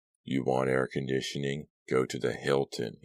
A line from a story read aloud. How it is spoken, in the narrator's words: he informed her dryly